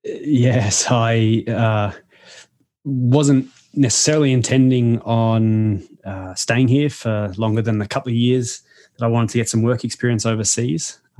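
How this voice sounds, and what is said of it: Australian accent. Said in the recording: “you've got an Australian accent”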